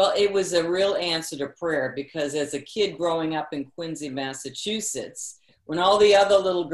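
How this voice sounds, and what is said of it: Usual voice. Nothing is said of it.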